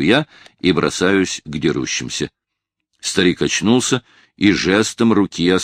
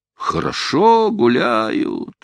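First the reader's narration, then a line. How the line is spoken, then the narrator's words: Calm drawl. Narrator (Russian): протянул он спокойно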